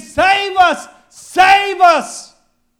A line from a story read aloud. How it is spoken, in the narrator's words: we're shouting Hosanna and saying